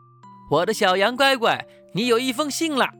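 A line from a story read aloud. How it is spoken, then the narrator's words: Calling out. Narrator (Chinese): 羊爸爸叫着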